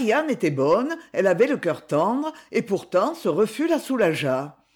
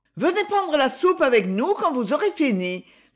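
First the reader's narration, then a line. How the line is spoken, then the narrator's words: Calling after someone leaving. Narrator (French): lui cria-t-elle comme il s'éloignait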